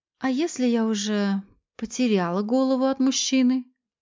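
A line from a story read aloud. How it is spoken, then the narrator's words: Quiet question. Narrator (Russian): тихо спросила Виолетта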